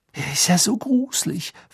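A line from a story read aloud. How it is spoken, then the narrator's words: Whisper. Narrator (German): flüsterte Pavati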